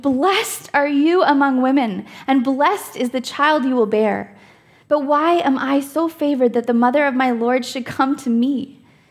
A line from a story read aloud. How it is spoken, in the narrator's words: In a loud voice, she exclaimed